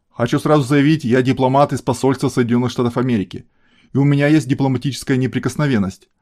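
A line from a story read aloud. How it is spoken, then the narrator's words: Loud announcement. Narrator (Russian): громко объявил Пирс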